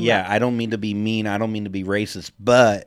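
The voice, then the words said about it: Put-on Southern accent. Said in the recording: “southern accent when you say that”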